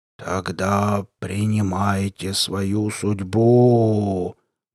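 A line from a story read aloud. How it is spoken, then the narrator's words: Muffled monstrous rumble. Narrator (Russian): глухо рокотнуло чудовище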